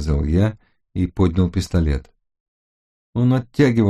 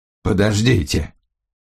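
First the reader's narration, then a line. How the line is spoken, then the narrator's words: Hoarse wheeze. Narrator (Russian): прохрипел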